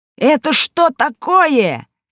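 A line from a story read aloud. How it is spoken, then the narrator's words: Towel creature shouting. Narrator (Russian): закричал полотенц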